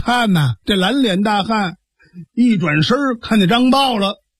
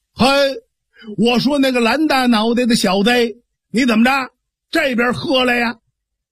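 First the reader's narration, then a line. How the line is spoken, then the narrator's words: Shouting. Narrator (Chinese): 张茂啊就冲着蓝脸大汉喊上了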